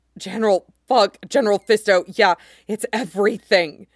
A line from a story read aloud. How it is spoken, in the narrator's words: Sturgeon panted out as he came, pleasure making him sound like he was crying